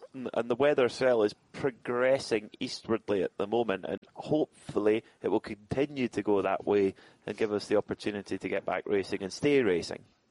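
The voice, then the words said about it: Soft Scottish accent. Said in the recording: “your nice, soft Scottish accent”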